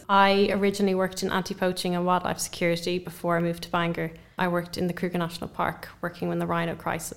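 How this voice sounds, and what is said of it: Non-British foreign accent. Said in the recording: “obviously I'm not from the UK, if you can hear from my voice.”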